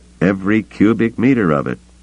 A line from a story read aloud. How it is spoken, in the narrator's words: Torve said firmly